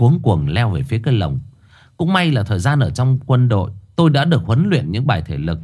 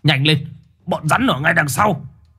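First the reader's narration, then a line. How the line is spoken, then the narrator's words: Shouting. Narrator (Vietnamese): Ông Dự hét lên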